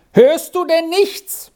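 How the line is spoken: Shouting from above. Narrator (German): Endlich schrie Squirrel von oben herunter

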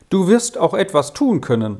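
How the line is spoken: Sudden angry shout. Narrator (German): rief auf einmal Zschäppi erbost zu ihm hinüber

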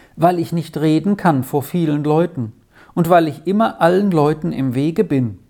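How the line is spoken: Plain answer. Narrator (German): antwortete Eveli

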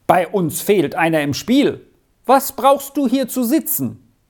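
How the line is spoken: Called out. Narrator (German): rief er

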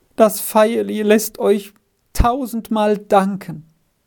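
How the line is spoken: Half-choked voice. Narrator (German): Mit halb erstickter Stimme sagte er

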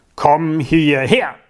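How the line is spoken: Thundering official. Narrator (German): donnerte der Amtmann Kathi an

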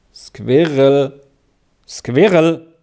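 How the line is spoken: Loud sudden warning. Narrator (German): sagte der Papa plötzlich laut mahnend

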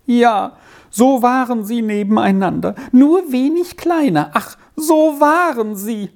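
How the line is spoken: Woman lamenting. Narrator (German): jammerte die Frau fort

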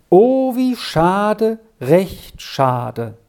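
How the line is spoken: Slow speech. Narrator (German): sagte langsam Pater Silvanus

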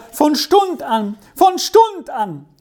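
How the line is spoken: Shouted again. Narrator (German): schrie wieder

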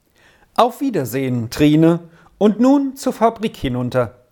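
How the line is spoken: Call. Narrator (German): rief der Professor

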